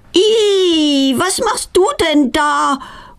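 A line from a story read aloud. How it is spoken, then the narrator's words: Horrified cry. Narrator (German): ruft sie entsetzt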